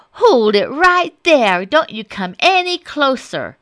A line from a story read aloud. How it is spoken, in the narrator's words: Little Red Hot yelled